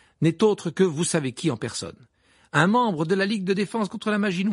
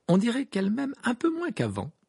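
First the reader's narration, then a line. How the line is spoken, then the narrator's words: Light tone. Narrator (French): dit Harry d'un ton léger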